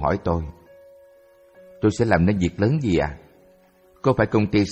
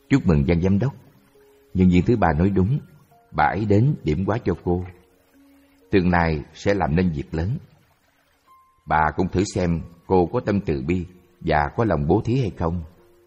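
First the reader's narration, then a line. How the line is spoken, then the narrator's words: Smiling. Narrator (Vietnamese): Tôi mỉm cười bảo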